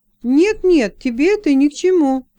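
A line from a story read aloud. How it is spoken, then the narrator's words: Exclaiming. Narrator (Russian): воскликнула Леса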